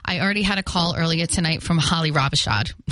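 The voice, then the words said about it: Fall River Massachusetts accent. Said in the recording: “my Fall River accent”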